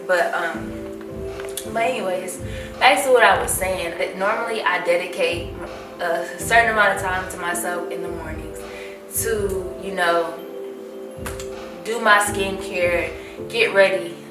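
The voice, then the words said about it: Breathless, winded speech. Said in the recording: “your girl is a little out of breath, I will admit. Guys, I'm 39 weeks pregnant today ... your girl's out of breath, so bear with me”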